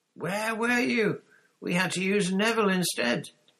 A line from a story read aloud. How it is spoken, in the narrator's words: Wood was yelling